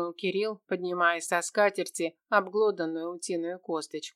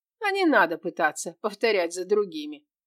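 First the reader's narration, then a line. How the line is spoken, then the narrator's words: Proud snort. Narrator (Russian): хмыкнул Мирослав с некоторой гордостью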